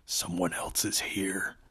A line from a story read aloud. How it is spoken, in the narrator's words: hissed